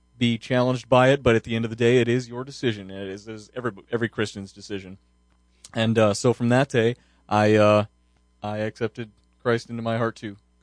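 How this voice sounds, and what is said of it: Rich, polished radio-announcer voice. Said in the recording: “I think he has a radio voice ... A very great radio voice.”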